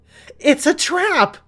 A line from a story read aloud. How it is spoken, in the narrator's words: screamed